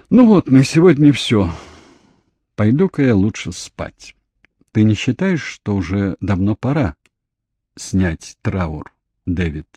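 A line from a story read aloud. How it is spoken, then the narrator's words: Calm question. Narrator (Russian): спокойно спросила Кейт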